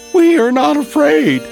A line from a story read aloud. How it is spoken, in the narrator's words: screamed Frog and Toad at the same time